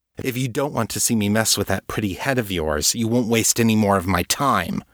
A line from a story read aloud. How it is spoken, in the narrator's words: Trajan snapped